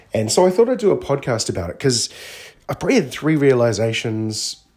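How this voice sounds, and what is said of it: Croaky voice. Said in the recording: “you can probably even hear in my voice, I'm still a bit croaky”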